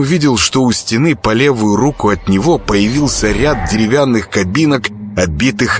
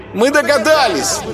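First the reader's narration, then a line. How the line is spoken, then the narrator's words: Shouted in chorus. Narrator (Russian): Хором закричали невесты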